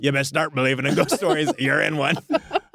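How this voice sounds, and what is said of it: Pirate accent, Pirates of the Caribbean style. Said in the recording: “I wouldn't know where to begin with a Russian accent. And so I just went for like the easiest possible thing. Which was sort of Pirates of the Caribbean”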